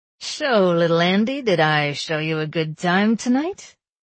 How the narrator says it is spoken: He slurred just a little bit

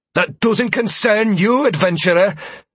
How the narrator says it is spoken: Verona spat

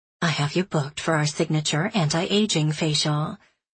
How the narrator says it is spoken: she says in a soft voice

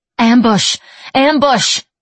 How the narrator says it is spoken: she said urgently

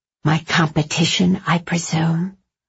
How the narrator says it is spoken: Natalie whispered

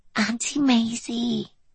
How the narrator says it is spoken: Anna's voice was little more than a whisper

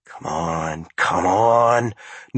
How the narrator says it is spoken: Norman muttered under his breath

